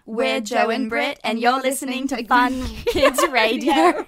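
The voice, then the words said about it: Poor put-on British accent. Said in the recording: “give me best British accent ... That was awful. ... So bad.”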